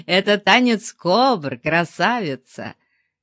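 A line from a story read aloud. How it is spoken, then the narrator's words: Laughing. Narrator (Russian): смеялся тот размек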